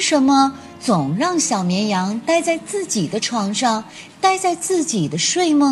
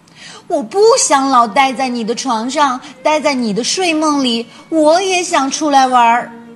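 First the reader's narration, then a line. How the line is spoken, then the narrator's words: Loud. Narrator (Chinese): 小绵羊也大声说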